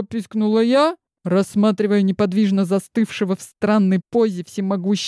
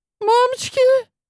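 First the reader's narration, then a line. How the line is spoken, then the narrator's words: Squeak. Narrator (Russian): пискнула Глашка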